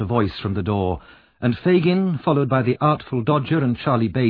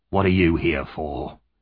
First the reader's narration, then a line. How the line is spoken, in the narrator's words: he asked roughly